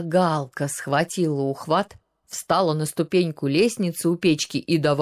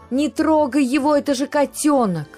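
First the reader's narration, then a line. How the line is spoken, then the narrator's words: Persistent yelling. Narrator (Russian): Галка упорно вопила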